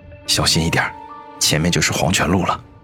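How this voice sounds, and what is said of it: Quiet whisper close to ear. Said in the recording (Chinese): “小声的在我耳边说道”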